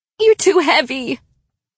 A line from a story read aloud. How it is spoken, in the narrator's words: pleaded